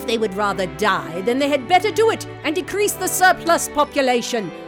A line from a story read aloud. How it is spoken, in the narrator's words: sneered Scrooge